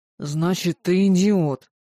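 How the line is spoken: Hissing. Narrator (Russian): прошипел Сэм

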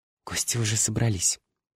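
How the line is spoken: Whisper. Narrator (Russian): шепнула мне Катя

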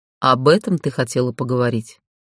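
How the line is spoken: Dry lifeless voice. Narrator (Russian): Голос Рейнара звучал сухо и безжизненно

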